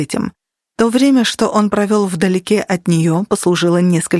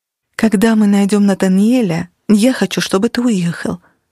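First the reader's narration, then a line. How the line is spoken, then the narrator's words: Soft. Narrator (Russian): мягко сказала Денис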